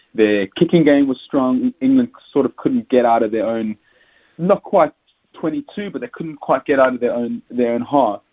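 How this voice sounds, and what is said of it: South African accent. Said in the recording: “As you can hear from my accent, I'm South African”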